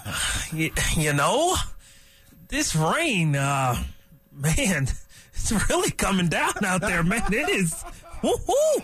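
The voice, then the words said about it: Imitates another person's voice. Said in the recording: “your impersonation of D-Mac doing the weather”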